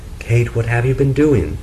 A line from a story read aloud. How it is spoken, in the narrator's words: Frederick came back, he cried out